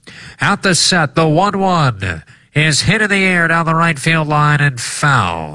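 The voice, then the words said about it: Old-timey radio announcer voice. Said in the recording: “I'm going to do old-timey radio voice.”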